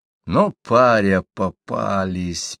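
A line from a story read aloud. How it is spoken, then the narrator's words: Sad voice. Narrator (Russian): печально проговорил Коняев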